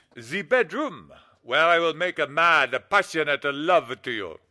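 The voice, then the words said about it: Phony Italian accent. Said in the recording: “that phony Italian accent”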